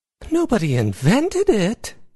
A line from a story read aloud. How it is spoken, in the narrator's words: Izzy exclaimed